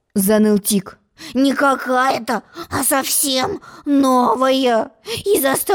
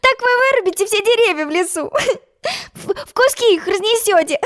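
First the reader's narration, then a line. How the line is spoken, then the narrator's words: Laughing. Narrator (Russian): Засмеялась Алиса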